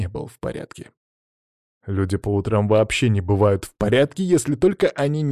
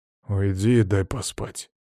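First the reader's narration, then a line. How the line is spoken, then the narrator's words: Grumbled reply. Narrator (Russian): буркнул я в ответ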